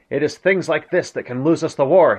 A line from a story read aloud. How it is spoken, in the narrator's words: he exclaimed in an outburst of startling frankness when spoken by the Führer